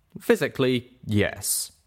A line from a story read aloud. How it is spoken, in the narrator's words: the doctor said